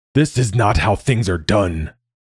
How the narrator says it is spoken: Malik snarled through the glass

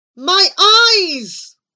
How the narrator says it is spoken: cried Abu despairingly

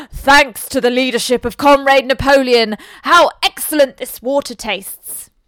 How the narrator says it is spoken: two cows enjoying a drink at the pool would exclaim

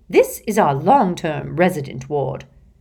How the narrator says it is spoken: she informed Harry, Ron, Hermione, and Ginny in a low voice

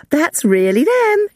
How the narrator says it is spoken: she exclaimed

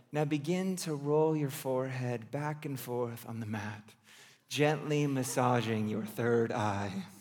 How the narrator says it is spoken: in her best yoga voice, the instructor said

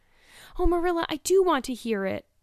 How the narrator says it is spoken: cried Anne contritely

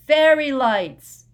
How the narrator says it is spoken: Harry had to yell

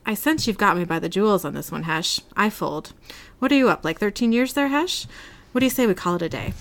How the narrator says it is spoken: sighs with release

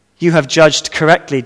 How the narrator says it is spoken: Jesus said

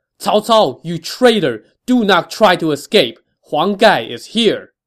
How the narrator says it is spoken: Huang Gai shouted

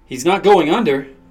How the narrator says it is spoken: the anesthesiologist yelled

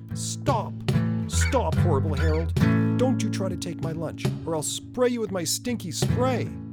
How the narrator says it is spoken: shouted Sammy Skunk

